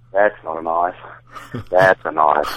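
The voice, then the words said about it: Put-on Australian accent, Crocodile Dundee. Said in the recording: “Can you do an Australian accent for us? ... You pull the old Crocodile Dundee on me, huh?”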